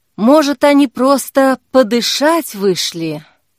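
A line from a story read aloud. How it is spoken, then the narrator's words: Sighing. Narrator (Russian): сказала Зоя и вздохнула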